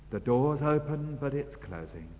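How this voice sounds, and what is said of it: Quiet, hushed speaking. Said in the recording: “say this quietly”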